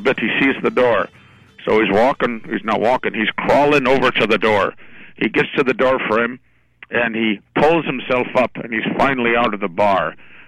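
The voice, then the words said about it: Put-on Irish accent. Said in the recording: “I guess I'm kind of doing an Irish accent here, aren't I? ... I like this new accent.”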